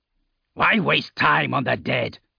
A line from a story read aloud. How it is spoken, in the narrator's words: Arke spat